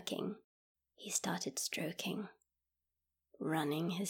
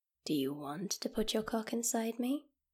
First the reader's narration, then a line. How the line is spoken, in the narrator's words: she asked